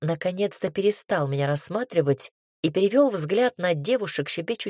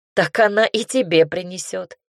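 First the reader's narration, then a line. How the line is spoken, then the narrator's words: Laughing interruption. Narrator (Russian): рассмеявшись, перебил Наир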